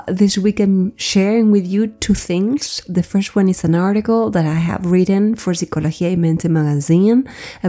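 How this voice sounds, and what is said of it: Sick, flu-affected voice. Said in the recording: “I've got the flu, so my voice is going to sound a little bit different.”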